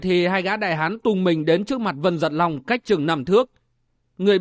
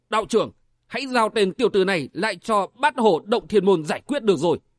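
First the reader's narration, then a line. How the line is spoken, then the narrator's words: Hot-tempered shout. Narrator (Vietnamese): hai người liền nóng nảy quát lên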